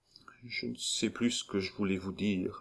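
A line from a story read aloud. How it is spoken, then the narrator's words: Dejected woman murmuring. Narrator (French): murmura la pauvre femme avec accablement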